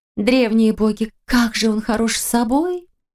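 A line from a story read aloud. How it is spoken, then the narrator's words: Near-moan into ear. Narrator (Russian): Чуть ли не простонала Валерия ей на ухо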